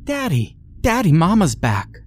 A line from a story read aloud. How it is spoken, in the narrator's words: she exclaimed as she raced to the door